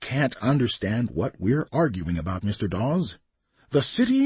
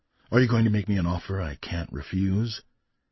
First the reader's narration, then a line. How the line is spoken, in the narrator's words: Fenner sighed